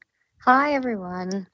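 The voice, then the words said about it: Sad-sounding voice. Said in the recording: “Why do you sound so sad?”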